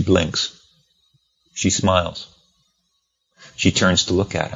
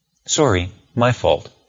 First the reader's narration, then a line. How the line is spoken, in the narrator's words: Fitzgerald says